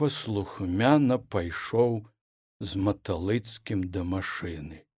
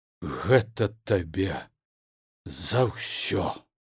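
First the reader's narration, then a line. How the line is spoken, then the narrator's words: Repeated male words. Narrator (Belarusian): паўтарыў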